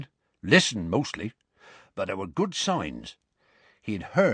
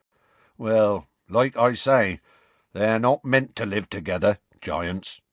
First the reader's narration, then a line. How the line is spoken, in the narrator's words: said Hagrid sadly